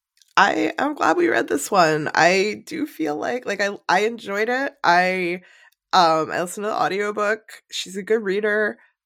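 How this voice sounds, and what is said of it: Congested, sick-sounding voice. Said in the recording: “sounding like I'm dead ... I have a cold. I'm sorry I sound like this.”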